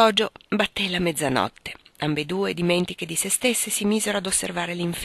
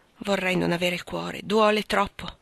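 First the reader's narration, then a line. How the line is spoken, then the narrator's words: Sighing. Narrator (Italian): Meg sospirava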